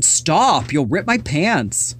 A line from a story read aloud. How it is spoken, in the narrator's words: Rondi and Allison giggled